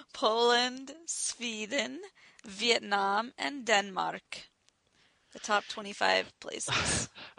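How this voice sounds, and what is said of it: Put-on Danish accent. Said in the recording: “I like how you read all those countries in like a Danish accent.”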